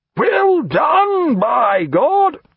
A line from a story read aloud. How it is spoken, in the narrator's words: he cried above the wail of bosun's calls piping him aboard